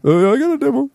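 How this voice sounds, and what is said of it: Imitates another person's voice. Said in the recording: “that was my impression of it.”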